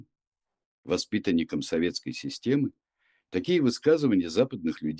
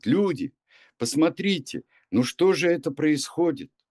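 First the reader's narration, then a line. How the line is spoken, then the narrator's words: Shout. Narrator (Russian): крикнуть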